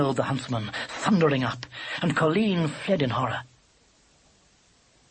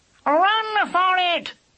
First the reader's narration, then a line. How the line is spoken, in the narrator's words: squalled Squintum to Lubber, at the top of his awful voice